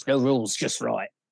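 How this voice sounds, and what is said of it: Convincing Australian accent. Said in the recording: “that's a little too, like, good ... That sounds like an Outback commercial ... I just like doing Australian accents”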